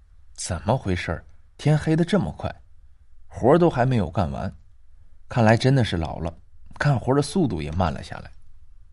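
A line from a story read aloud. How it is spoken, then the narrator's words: Old woman muttering. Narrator (Chinese): 张婆婆嘴里嘟囔了一句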